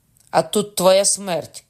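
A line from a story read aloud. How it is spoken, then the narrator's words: Shout from a window. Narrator (Ukrainian): крикнула мати з вікна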